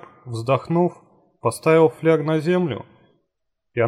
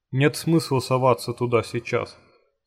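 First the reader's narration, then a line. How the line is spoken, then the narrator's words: Plain. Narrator (Russian): сказал долговязый Барбос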